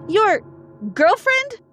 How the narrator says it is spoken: yelled in surprise

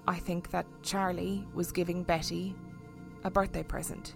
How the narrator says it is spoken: Judith said quietly

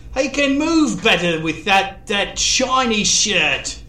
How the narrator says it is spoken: Kay yelled

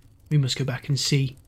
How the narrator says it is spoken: said Shorthouse, briefly, in a low tone

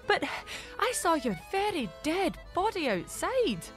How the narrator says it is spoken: Mari told him, gasping for breath

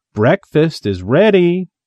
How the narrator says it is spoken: called brightly

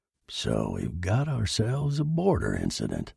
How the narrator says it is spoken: muttered Franklin

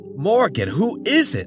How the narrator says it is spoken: John yelped

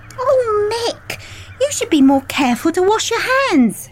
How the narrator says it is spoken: exclaimed

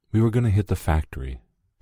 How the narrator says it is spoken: Shelley said, her voice barely above a whisper

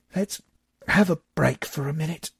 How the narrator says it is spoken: wheezed

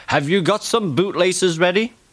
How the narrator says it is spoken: Thomas laughing

